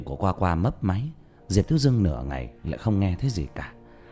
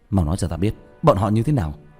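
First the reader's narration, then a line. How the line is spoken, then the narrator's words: Startled, urgent shout. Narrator (Vietnamese): Sửng sốt, bỗng nhiên nhớ tới lúc trước nó cũng ở dưới, tóm lấy quần áo của hắn mà quát lên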